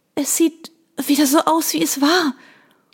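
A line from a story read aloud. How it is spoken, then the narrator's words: Panting. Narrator (German): keuchte ich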